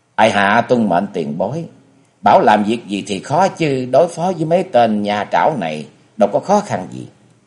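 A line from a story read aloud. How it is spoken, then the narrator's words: Smiling, knowing. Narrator (Vietnamese): Kế Hoàng hiểu ý, mỉm cười và lên tiếng nói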